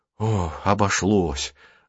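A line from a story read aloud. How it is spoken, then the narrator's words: Relieved sigh, boy. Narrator (Russian): облегченно вздохнул мальчик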